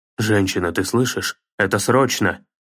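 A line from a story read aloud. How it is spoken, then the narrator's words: Growling. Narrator (Russian): зарычал Кратос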